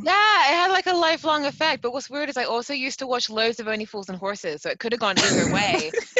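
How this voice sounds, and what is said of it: American-sounding accent. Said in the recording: “I'm interested in this accent. Where's it from?... I ended up sounding like Tommy Pickles... she had an American accent as well”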